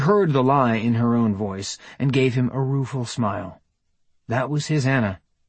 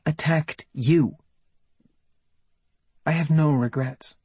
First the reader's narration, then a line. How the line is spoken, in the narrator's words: Her voice tightened, and she said